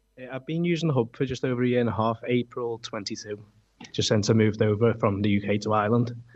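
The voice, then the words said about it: Non-local, British-sounding accent. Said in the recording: “that is not a Cormeen accent”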